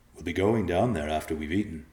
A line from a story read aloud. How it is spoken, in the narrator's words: Evenei said